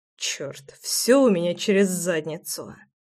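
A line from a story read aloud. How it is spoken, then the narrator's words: Muttered. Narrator (Russian): пробормотал я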